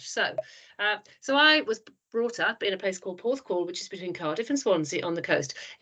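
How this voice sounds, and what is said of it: Welsh accent. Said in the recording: “I'm getting a twang of Welsh ... A total twang of Welsh”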